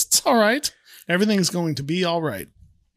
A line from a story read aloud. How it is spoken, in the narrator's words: The Reverend laughs and says